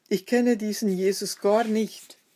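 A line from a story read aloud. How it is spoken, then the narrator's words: Called out again. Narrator (German): rief er noch einmal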